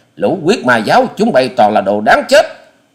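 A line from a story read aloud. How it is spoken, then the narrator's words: Roaring. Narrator (Vietnamese): Hoa Sĩ Kiệt gầm lên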